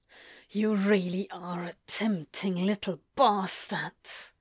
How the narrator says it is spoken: Crowley hisses in his ear

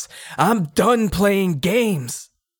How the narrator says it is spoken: shouts

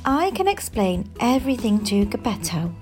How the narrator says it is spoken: said kindly

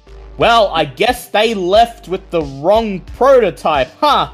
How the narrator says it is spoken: Azure laughs

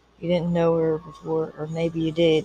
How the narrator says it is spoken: he added quietly

